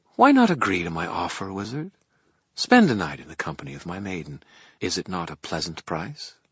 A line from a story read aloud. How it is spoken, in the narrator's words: My voice came out more quietly than I intended